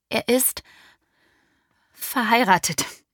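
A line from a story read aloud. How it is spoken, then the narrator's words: Fearful stammer. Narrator (German): stammelte ich und erwartete jeden Augenblick eine Ohrfeige als Strafe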